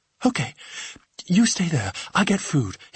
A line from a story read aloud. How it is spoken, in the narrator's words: gasped